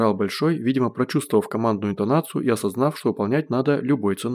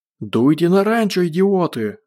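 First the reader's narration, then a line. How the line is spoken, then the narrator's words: Hoarse yelling. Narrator (Russian): заорал Гош, срывая голос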